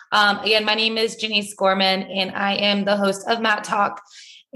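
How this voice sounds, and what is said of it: Hoarse, strained voice. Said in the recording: “My voice is a little gone ... lots of, yelling, late nights ... my voice is like, we're just losing it”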